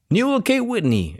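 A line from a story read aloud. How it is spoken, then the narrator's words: Exclaiming. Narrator (Spanish): exclamó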